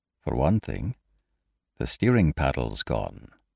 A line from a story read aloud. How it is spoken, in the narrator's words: he said quietly